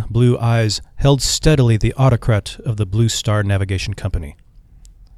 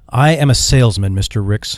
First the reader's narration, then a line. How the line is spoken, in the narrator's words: he replied